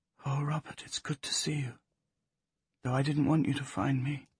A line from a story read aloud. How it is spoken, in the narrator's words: in a lowered voice